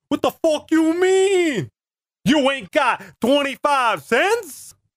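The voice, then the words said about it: Put-on Sopranos-style accent. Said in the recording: “that's my Sopranos accent.”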